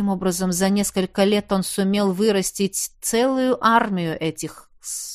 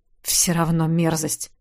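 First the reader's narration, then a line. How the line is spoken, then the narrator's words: Grumbled. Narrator (Russian): буркнул Ёж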